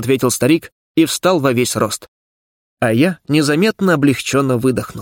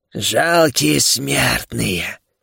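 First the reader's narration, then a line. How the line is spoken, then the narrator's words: Hoarse rasp. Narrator (Russian): прохрипел Шхарас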